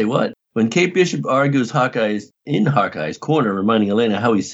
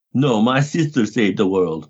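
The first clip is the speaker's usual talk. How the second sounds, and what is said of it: Poorly done put-on accent. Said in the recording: “Oh, that was a lousy accent.”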